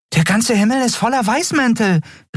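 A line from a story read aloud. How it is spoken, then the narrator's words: Exclaimed. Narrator (German): rief Nelen aus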